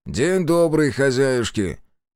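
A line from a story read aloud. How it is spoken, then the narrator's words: Loud greeting. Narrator (Russian): Громко поздоровался Демьян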